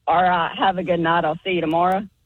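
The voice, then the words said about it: Thick Southern accent. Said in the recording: “Still sounds a little Southern. ... It still sounds Southern. ... you've got that thick accent ... pretty much anything you say is gonna have that sound to us.”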